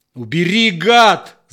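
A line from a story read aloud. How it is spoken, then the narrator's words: Distorted frantic yell. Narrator (Russian): заорал Степан не своим голосом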